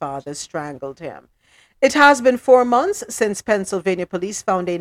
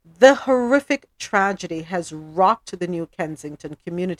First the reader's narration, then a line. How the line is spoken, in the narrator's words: Ziccarelli said